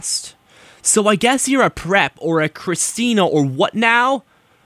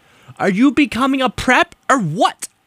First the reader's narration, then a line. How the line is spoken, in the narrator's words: I shouted angrily